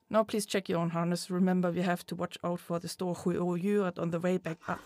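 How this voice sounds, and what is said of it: Strong non-American accent. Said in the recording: “apparently Americans can't understand my accent.”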